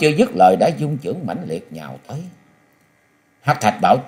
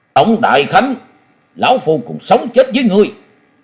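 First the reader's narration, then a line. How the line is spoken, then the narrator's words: Roaring like a tiger. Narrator (Vietnamese): phiêu bình khách Lý Kỳ giọng như hổ gầm nói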